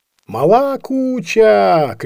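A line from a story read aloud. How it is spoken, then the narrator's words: Several people shouting. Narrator (Russian): кричало несколько человек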